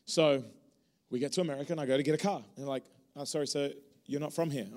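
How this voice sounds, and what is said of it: Non-American English accent. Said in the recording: “My accent ... I thought you just had an accent”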